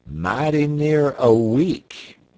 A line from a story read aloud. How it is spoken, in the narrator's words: replied Charlie